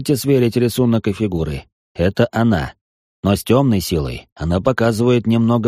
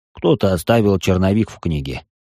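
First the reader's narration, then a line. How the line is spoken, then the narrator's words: Young man's smirking snort. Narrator (Russian): хмыкнул парень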